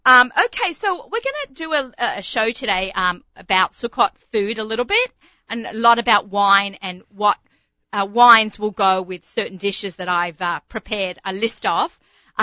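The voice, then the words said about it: Australian accent. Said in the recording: “You're an Aussie ... I'm from Bondi ... you can take the Australian out of Australia, but you still get the accent”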